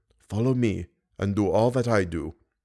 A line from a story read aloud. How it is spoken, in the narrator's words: heard him whisper